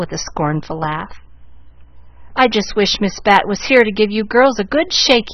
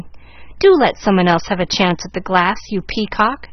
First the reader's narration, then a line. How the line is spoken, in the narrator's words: exclaimed Molly Lou